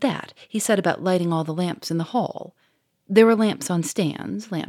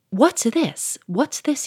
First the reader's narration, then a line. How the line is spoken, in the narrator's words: he cried